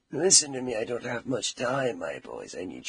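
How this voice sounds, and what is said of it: Raspy, gravelly whisper. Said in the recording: “Why are you whispering from the other room? ... This is as loud as you can speak. ... Sounds like throat cancer. Are you trying to be Batman?”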